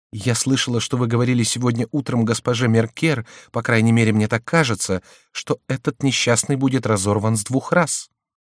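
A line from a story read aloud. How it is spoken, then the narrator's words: Timid objection. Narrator (Russian): возразила робко королева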